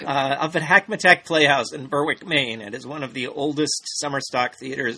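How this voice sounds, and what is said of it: Rough, strained, hoarse voice. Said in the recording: “my voice is just trashed right now ... My singing voice is it's a little rough at the moment”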